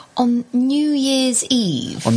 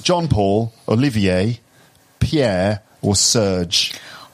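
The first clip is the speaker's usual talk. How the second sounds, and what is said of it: French names in English accent. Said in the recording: “I'll say it in an English accent.”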